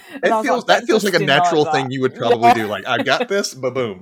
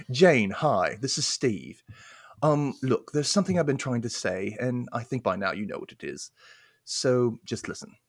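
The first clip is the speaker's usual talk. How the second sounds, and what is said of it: Put-on British accent. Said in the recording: “I want to do this in a British accent ... it's going to be bad”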